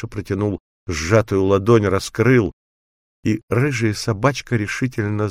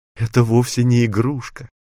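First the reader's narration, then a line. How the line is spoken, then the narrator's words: Joyful laughter. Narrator (Russian): радостно смеялась Никки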